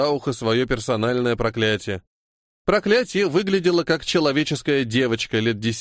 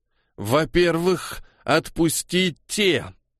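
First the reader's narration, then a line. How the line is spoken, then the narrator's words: Slight growl. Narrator (Russian): слегка рыкнула Пелам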